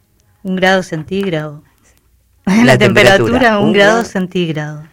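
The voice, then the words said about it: Radio announcer voice. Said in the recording (Spanish): “Con voz de locutora, así como esa.”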